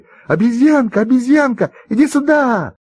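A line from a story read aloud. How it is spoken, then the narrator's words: Children shouting together. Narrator (Russian): И все ребята закричали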